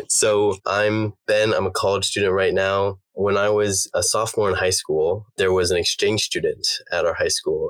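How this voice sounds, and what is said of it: Slightly raspy voice. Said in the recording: “I did wake up this morning with a sore throat ... my voice sounds a little raspy”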